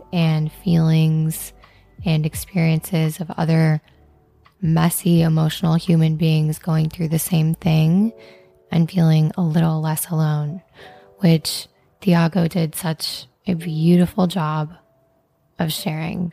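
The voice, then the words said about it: Hoarse, growly recovering voice. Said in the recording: “my voice is a little bit lost. I've been recovering from laryngitis ... my vocal quality has been up and down ... sultry, growly voice”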